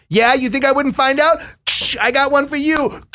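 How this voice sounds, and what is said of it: Put-on Long Island accent. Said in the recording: “accent that you were doing? Because if that's a Long Island accent”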